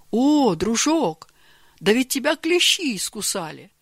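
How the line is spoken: Exclamation. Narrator (Russian): воскликнул Георгий Иванович

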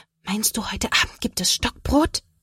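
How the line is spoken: Whispered reply. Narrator (German): Sophia flüstert zurück

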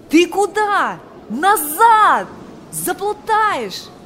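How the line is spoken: Shouting. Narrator (Russian): кричал

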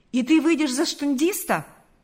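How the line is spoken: Exclaiming. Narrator (Russian): воскликнул Карп

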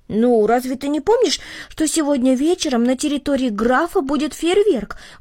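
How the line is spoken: Exclaiming. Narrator (Russian): воскликнул Артур

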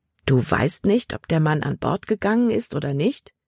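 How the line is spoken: Plain. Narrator (German): fragte Caleb

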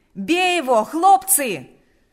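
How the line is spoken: Shouting. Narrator (Russian): снова закричал Панас

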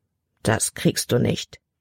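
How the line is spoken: Murmuring. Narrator (German): murmelte sie

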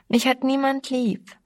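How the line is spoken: Whining. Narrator (German): jammerte sie

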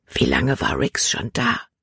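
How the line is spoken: Whispering. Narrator (German): flüsterte sie

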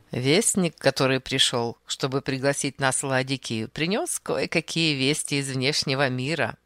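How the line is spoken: With a short laugh. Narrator (Russian): продолжал Архип, коротко засмеявшись

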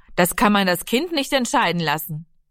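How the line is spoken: Interrupting call. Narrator (German): Vater Lenzen rief dazwischen

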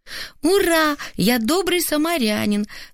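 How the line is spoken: Joyful shout. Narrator (Russian): радостно крикнул сын

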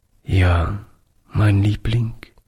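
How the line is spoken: Broken voice. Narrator (German): antwortete Oliver mit gebrochener Stimme

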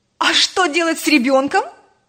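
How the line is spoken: Almost shouting. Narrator (Russian): чуть не закричала Роза

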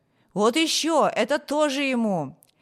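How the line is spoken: Shouting. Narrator (Russian): А другие кричали

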